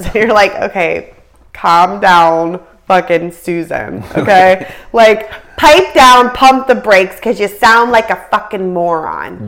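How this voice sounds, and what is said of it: Aggressive, heated ranting delivery. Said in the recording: “Pardon my... Wow. Aggressiveness. ... That was extremely aggressive. ... I feel a little aggressive.”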